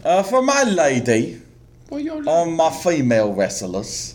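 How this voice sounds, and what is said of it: Put-on accent of unclear kind. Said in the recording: “I don't know what accent ... I'm doing.”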